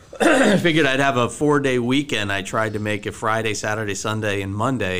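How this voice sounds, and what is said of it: Froggy, hoarse voice. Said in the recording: “my voice is a little froggy today. I'm not sure why. Probably because I was outside all weekend in the rain.”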